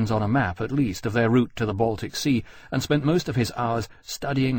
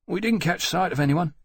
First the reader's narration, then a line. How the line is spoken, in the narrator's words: Martin added anxiously